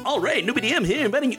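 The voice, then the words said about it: Awkward attempted radio announcer voice. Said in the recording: “Best radio voice? ... Oh wow, that's terrible.”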